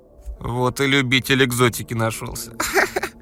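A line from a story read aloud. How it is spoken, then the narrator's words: Giggling from behind. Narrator (Russian): Хихикнули за спиной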